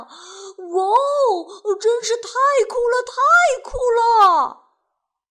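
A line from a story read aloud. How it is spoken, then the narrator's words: Shouting. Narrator (Chinese): 杰克喊道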